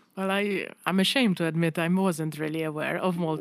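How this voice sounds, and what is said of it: Polish accent in English. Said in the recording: “they can notice my accent, but they're not going to really pinpoint your Polish”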